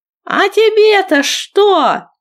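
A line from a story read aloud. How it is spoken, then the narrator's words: Drunken shout. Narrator (Russian): крикнул какой-то мужлан, еле стоящий на ногах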